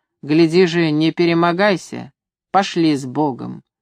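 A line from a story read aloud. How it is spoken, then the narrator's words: Stern advice. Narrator (Russian): Григорий строго посоветовал Ивану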